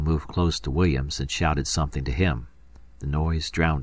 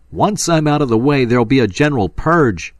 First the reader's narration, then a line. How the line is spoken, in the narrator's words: he roared